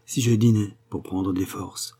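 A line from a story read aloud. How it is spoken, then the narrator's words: Murmured. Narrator (French): murmura-t-il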